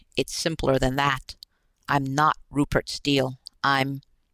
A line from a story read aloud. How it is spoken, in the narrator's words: his voice caught